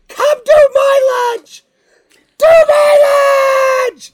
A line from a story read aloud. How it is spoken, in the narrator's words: the kids are screaming